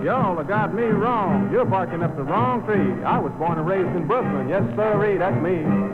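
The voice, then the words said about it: Southern drawl. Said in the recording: “how come you talk with that southern drawl?”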